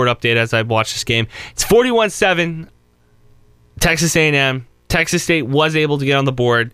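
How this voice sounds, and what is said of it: Usual voice. Nothing is said of it.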